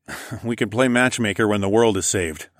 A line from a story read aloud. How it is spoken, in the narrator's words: I chuckled